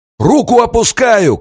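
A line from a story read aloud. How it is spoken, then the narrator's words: Shouted over shoulder. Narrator (Russian): крикнул он через плечо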